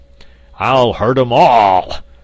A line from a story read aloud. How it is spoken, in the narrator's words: roared the angry metal monarch